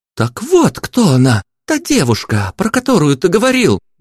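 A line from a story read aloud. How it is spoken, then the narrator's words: Singer exclaiming. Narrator (Russian): воскликнула певичка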